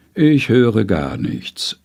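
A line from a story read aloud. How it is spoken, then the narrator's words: Calm, contented, breathing in. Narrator (German): sagt die Frau ruhig aus und einatmend, wohlig im Rücken gewärmt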